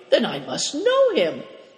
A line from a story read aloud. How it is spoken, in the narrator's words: cried